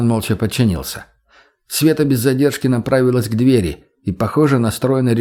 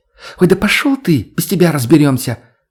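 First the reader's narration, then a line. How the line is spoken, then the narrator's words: Sudden defiant snap. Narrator (Russian): Внезапно взбрыкнула она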